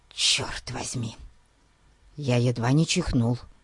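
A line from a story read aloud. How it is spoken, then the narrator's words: Whisper. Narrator (Russian): прошептал Ларри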